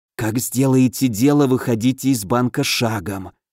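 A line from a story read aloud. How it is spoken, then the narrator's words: Drawn-out whisper. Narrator (Russian): шепотом протянул Алёша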